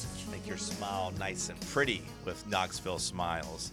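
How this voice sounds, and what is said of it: Usual voice. Nothing is said of it.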